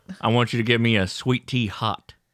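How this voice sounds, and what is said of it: Redneck Southern-accented Jean-Luc Picard. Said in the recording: “it's redneck Picard is what”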